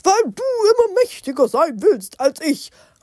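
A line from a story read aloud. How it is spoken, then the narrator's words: Said angrily. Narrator (German): sagte Barbaros wütend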